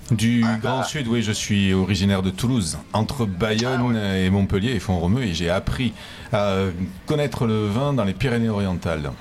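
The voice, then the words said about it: Southern French accent. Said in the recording (French): “Autre accent du Sud également, peut-être pas de Montpellier”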